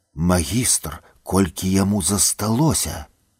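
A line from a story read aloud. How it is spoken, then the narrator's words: Quiet question. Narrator (Belarusian): Малгося ціха папыталася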